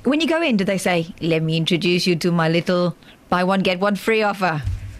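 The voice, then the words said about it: Scarface impression, sounds Pakistani. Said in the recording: “What accent is that? ... It was him doing the Scarface. ... he's not a Pakistani in Scarface. He's from Cuba.”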